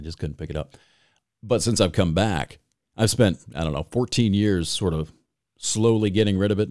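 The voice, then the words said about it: Thick Michigan accent, hard vowels. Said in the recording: “you've got one of those Michigan accents ... it's sort of a cross between Canada and Chicago ... we hit our vowels really hard ... it is thick as fuck”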